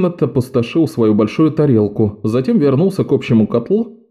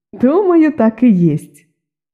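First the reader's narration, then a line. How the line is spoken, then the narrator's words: Giggling. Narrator (Russian): хихикнула Перетта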